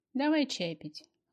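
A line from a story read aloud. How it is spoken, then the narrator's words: Gentle, affectionate. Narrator (Russian): ласково предложила подруга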